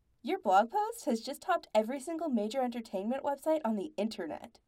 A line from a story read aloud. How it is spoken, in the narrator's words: Andy said brightly in his ears